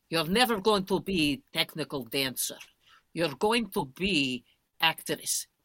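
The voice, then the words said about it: Put-on German accent. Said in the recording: “I have to do her... I have to do it with the German accent”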